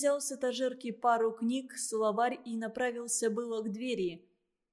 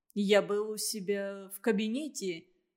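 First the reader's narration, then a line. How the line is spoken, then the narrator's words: Dry. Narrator (Russian): сказал Андрей сухо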